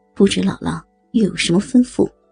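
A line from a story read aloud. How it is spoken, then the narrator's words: Tender childlike voice. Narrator (Chinese): 童老娇嫩的童音说道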